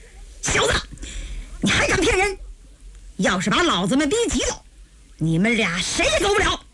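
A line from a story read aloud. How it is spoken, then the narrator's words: Furious. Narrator (Chinese): 吴老怒不可遏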